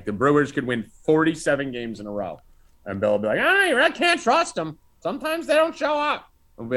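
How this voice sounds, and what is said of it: Usual voice. Nothing is said of it.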